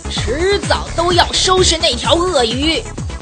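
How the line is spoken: Angry roar. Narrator (Chinese): 他 愤怒地 大声地吼道

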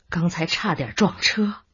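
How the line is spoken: Resigned laugh. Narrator (Chinese): 白小洞无奈的笑笑

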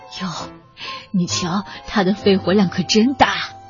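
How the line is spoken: Amazed. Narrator (Chinese): 他们会惊叹的说

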